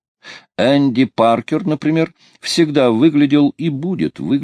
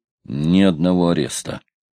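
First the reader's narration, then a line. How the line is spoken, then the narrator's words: Fierce growl. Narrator (Russian): свирепо рычал Паркер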